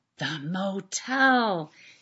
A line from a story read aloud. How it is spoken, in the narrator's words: someone whispers